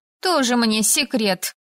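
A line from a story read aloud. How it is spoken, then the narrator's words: Scoffing snort. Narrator (Russian): фыркнула Элайза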